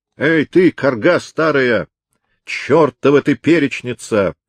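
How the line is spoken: Rough voice booming from cave. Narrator (Russian): прогремел из глубины пещеры грубый голос Дирка Хаттерайк

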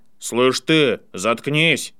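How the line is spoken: Booming voice. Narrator (Russian): прогремел мистер Крэб

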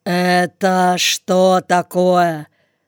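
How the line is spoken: Stern official's address. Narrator (Russian): Строго обратился заезжий начальник

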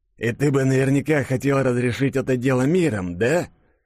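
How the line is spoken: Wheezing rasp. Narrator (Russian): прохрипел гангстер

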